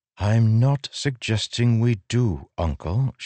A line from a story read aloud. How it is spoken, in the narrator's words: she said, her voice cold